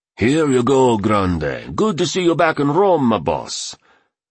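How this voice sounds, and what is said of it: Rich Italian accent, gritty voice. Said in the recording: “spoke with a rich Italian accent and a voice as gritty as sandpaper”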